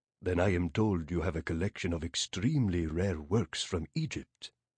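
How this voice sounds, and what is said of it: Arabic accent with a lilt. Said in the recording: “his voice rich with the lilt of an Arabic accent.”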